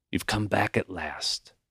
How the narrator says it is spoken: he whispered

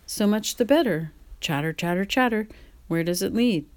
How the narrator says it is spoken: said Mr

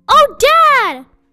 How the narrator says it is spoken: cried out

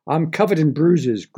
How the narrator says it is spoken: groaned

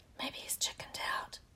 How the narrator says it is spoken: Ron whispered

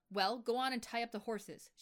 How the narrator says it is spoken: she snapped

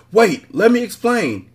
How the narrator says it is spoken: he cried

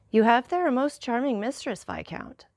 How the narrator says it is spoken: said the Count in a perfectly calm tone

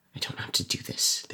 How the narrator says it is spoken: they muttered to themselves

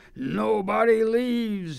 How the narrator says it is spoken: he bellows

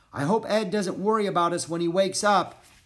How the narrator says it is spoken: Annie shouted back

